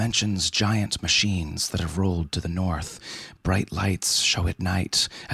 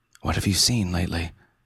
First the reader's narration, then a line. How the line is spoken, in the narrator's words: asking in a whisper